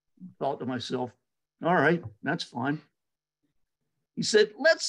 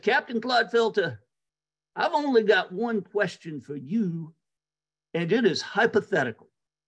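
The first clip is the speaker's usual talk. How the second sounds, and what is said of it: Imitated heavy Southern accent. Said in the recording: “He had a horrible Southern accent.”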